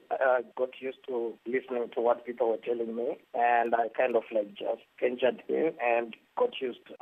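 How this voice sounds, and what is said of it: Zimbabwean English accent. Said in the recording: “my accent, because the way I even pronounce my name, no one could understand it ... when you come from Zimbabwe”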